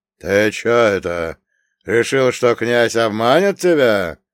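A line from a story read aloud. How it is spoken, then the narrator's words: Old man's booming drone. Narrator (Russian): вновь прогудел дед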